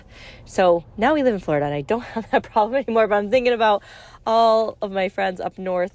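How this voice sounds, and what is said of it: Congested, sniffly voice. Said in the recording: “I got a little bit of sniffles. Sorry if you could hear it in my voice”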